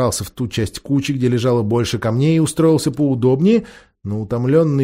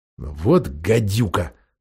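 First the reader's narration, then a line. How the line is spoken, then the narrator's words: Grumbled. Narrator (Russian): проворчал Эдмунд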